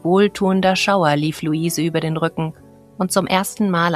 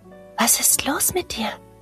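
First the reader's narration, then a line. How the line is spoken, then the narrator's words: Barely audible whisper. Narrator (German): flüsterte Luise kaum hörbar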